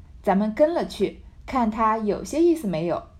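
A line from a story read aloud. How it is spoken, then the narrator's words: Laughing. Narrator (Chinese): 探春笑道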